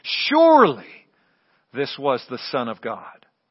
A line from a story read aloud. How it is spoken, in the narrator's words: the centurion in charge of the Roman soldiers exclaimed